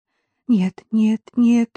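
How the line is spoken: Trembling mindless repetition. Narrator (Russian): бессмысленно повторяла Катя дрожащим голосом

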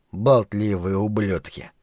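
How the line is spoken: Mumbling with a stuffy nose. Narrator (Russian): пробормотал охранник с насморком

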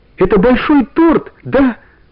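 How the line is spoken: Joyful shout. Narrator (Russian): радостно закричала она

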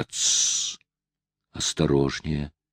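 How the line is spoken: Whisper. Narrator (Russian): послышался шепот

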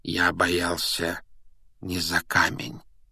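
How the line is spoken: Gentle correction. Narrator (Russian): мягко поправил его Дамблдор

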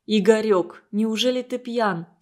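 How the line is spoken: Plain. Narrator (Russian): спросила Светлана

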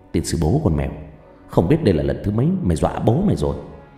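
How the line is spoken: Muttered cursing. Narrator (Vietnamese): Lẩm bẩm, Tư khẽ chửi thề

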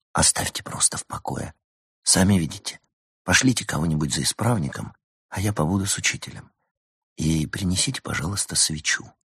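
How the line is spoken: Whispered. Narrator (Russian): прошептал

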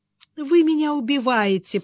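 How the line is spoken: Moaning. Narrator (Russian): простонала женщина

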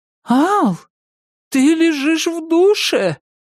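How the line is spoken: Exclaimed. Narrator (Russian): воскликнула она

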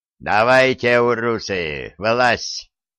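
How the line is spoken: Warrior's offer. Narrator (Russian): предложил один из торков

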